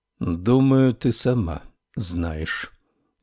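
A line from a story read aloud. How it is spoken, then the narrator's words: Slow speech. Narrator (Russian): медленно проговорил Буденбаум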